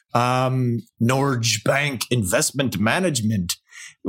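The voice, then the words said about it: Put-on Norwegian accent. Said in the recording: “with my Norwegian accent ... we just lost a few listeners on that one”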